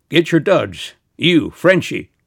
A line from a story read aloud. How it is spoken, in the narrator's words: Nick was bellowing in his face